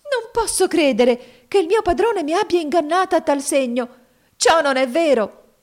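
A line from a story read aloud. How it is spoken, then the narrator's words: Exclaimed with growing agitation. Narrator (Italian): esclamò la povera giovane con crescente agitazione d'animo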